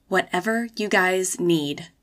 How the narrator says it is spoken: she whispered

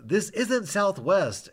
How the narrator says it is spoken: The attendant is yelling back

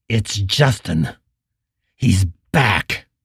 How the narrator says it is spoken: he just whispered through clenched teeth

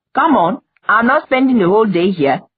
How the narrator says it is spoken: The woman said sharply

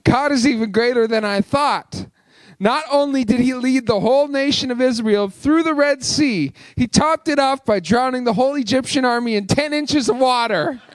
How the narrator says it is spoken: exclaimed the boy happily

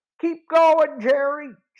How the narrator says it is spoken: Joe shouted

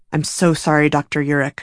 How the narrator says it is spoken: Bob mumbled

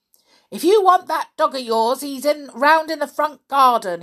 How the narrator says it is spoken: he shouted

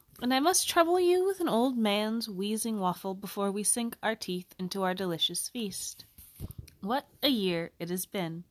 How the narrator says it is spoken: Dumbledore said cheerfully

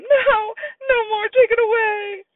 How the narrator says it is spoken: Sam started to scream

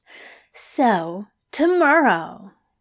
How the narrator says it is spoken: said brightly

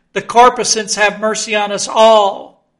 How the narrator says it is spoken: cried Stubb again

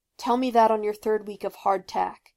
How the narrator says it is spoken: snapped Zuko

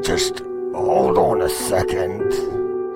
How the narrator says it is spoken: he said through gritted teeth

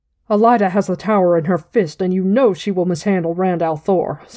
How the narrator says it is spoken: Swan said scornfully

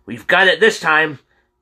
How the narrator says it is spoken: James yelled

